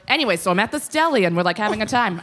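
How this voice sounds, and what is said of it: New York accent. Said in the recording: “do it in the accent that we all know and love ... my natural one would be like”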